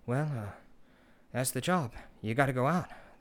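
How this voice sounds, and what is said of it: Low, weak Boston accent impression. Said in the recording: “he always kind of talks like Boston accent. He's got like kind of a low Boston accent that he can't really do.”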